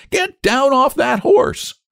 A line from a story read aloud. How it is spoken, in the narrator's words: The colonel roared with laughter